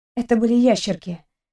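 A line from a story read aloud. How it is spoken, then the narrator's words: Quiet reply. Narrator (Russian): тихо отозвалась я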